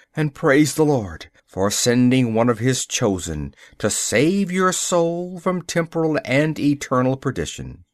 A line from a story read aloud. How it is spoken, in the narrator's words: I cried